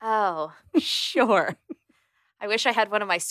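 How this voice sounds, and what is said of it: Usual voice. Nothing is said of it.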